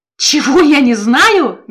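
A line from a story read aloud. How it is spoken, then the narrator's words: Devilish laughter. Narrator (Russian): библиотекарь снова дьявольски расхохотался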